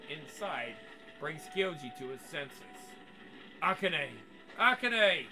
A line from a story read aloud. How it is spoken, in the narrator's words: He shouts as loudly as he can